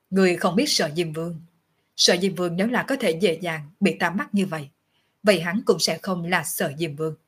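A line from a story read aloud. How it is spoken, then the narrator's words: Calm, faint smile. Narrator (Vietnamese): mỉm cười, nhàn nhạt nói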